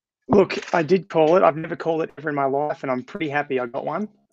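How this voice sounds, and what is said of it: Voice sounds a bit off. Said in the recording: “As you can hear, my voice is a bit weird”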